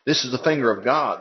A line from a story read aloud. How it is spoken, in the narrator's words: they exclaimed